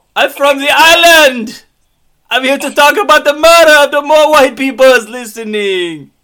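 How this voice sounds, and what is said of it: Poor attempt at Caribbean accent. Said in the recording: “Caribbean boy! ... That is not an accent.”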